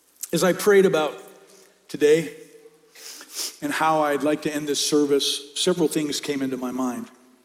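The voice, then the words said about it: Hoarse voice. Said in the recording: “your throat gets hoarse.”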